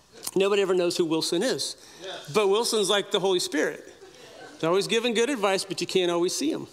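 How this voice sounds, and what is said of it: Usual voice. Nothing is said of it.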